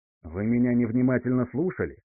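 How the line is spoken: Irritated question. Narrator (Russian): раздраженно спросил милорд Бриан

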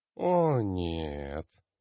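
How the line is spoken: Moaning. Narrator (Russian): простонала Селестина

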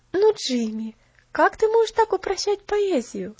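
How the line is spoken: Affectionate laughing chiding. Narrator (Russian): ласково со смехом пожурила его Поллианна

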